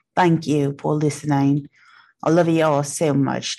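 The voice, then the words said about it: Put-on Australian or Irish accent. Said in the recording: “Do you like my Australian accent? It might be Irish. I'm not sure.”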